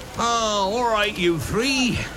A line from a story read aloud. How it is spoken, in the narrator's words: Hagrid yelled over the heads of the crowd